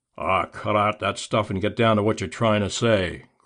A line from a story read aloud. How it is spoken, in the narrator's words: growled Blackie